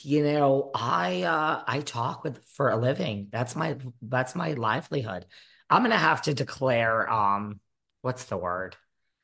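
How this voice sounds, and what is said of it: Hoarse, nearly lost voice. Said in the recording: “The voice is kind of still gone, but it's here ... It's been gone for like a week ... losing my voice ... fried”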